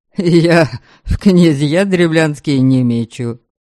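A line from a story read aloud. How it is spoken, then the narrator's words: Wry snort. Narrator (Russian): хмыкнул Ваята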